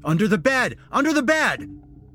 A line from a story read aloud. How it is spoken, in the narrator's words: the policeman shouted